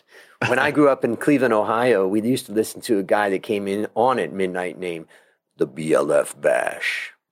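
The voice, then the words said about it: Midnight radio DJ voice. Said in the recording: “I haven't brought out my midnight DJ voice, so here it is.”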